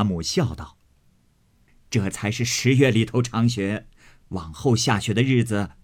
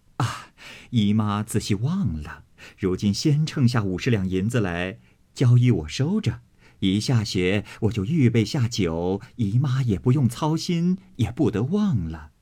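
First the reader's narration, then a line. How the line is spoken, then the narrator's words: Laughing. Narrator (Chinese): 凤姐儿笑道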